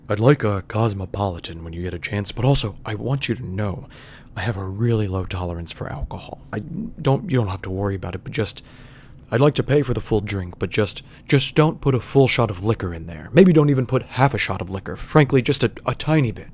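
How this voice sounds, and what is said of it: Dignified radio-announcer voice. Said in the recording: “I'm gonna try to do his, like, dignified radio voice.”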